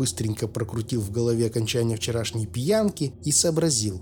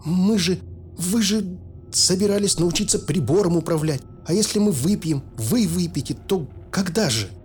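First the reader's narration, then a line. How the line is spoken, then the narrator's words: Frightened mumble. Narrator (Russian): Профессор дернулся, посмотрел на меня испуганно и промямлил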